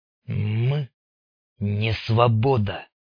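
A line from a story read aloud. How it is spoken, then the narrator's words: Through gritted teeth. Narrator (Russian): сквозь зубы процедил Рыжий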